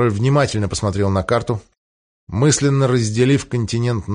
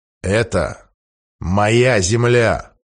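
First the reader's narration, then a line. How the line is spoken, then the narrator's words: Cold. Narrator (Russian): холодно объяснил Генрих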